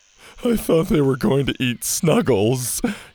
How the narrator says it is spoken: his friend Jake whimpered

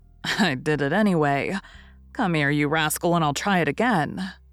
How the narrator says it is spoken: saying with a laugh

